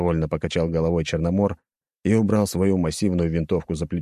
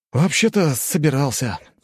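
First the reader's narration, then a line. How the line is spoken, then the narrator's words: Sighing. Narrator (Russian): вздохнул я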